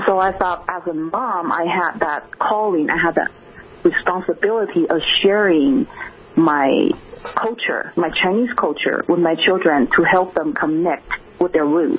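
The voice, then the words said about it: Speaks with a foreign accent. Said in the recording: “Why do I speak with an accent”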